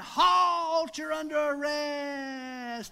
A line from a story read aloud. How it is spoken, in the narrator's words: he's hollering